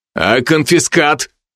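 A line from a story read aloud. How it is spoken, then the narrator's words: Menacing growl. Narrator (Russian): рыкнул Алви так, что дознаватель втянул голову в плечи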